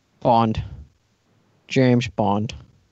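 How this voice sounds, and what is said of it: Imitates James Bond character voice. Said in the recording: “your James Bond impression ... I'm going to finish you off as James Bond”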